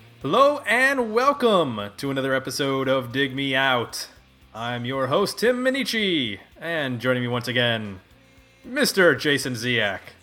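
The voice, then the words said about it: Exaggerated radio announcer voice. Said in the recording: “I am doing my radio announcer voice tonight ... Sounds good, doesn't it? ... Sounds like Rush Limbaugh or something.”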